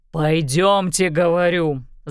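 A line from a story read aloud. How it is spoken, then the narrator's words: Growl. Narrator (Russian): зарычал Гаррисон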